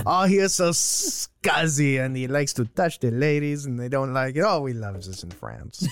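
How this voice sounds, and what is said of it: Exaggerated French accent drifting Italian. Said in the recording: “It started going sort of Italianish. ... It was Pepe Le Pew-ish, and then it turned a bit Italian.”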